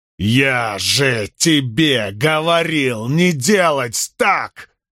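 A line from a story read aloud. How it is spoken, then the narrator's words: Roar, choking on breath. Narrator (Russian): взревел Перин и захлебнулся собственным вздохом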